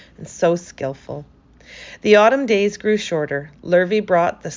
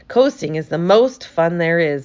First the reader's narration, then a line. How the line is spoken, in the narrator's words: said Avery